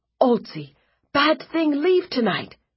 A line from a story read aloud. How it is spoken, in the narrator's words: she said excitedly